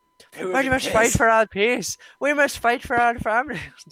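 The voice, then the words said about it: Put-on Irish accent. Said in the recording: “I'm Irish now. Let's just do it. I'm Irish now. ... I guess the Irish accent is real.”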